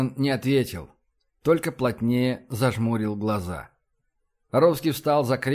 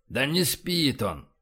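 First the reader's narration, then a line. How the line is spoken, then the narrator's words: Grumbling. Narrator (Russian): проворчал Боровский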